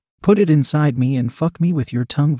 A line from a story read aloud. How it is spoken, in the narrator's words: Vanessa demanded